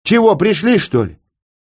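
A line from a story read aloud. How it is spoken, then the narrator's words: Shouting to nobody. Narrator (Russian): крикнул Скорик, неведом кому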